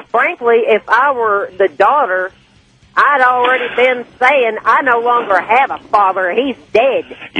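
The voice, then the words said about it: Thick Southern American accent. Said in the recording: “I think God sounds just like you. ... I think he's got a thick Southern accent.”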